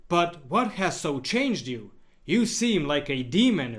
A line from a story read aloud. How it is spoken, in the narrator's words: Richard exclaimed